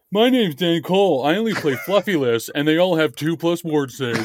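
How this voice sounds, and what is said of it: Imitates another person's voice. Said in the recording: “my Dan Cole impression”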